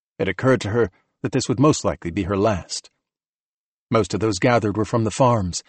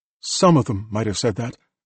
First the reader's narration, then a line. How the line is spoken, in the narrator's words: he said